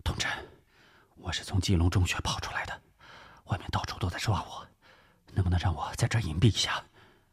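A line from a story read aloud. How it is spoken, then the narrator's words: Low voice. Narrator (Chinese): 翁连旺 压低声音说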